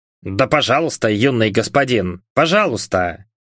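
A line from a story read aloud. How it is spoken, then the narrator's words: Grumbled by house spirit. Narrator (Russian): пробурчал домовой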